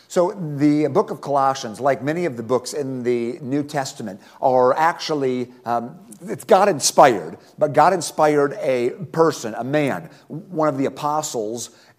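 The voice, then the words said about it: Slightly gravelly, somewhat monotone voice. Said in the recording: “My voice is feeling a little bit poorly tonight, and so I apologize if it's a little more grovelly ... I may have to be a tad more monotone”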